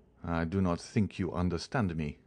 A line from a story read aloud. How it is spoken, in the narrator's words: replied Caderousse calmly